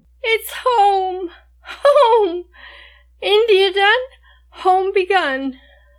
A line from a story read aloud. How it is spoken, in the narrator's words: cries